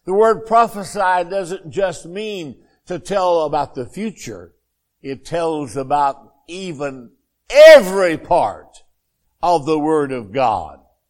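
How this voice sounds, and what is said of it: Arkansas Southern accent. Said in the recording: “my Arkansas accent”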